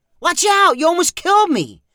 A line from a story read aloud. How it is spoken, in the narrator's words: Zach yelled, glaring